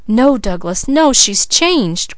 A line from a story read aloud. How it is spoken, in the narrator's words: cried Leslie